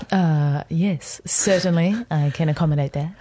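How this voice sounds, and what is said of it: Imitates another person's radio voice. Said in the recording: “you trying to do my radio voice? ... my radio voice is much better. It's yours, quite good, actually. ... Do you want to do the rest of the interview in that voice?”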